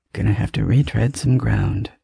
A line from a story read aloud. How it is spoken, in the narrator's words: he murmurs under his breath, more to himself than to me